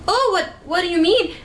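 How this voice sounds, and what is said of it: Weak put-on Scottish accent. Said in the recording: “in the best Scottish accent I could muster, which isn't a very good one”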